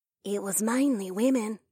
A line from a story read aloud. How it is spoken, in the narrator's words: a hushed voice whispered into my ear